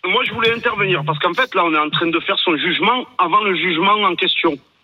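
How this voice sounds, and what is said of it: Slight regional French accent. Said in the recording (French): “avec ce petit accent”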